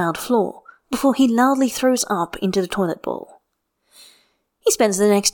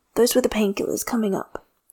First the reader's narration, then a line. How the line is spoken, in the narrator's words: Jinyan croaks quietly